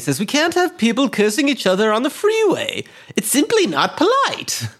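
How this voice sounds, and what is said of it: Bad impression of the Joker's voice. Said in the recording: “My bad Mark Hamill impression. ... Jolly to menacing.”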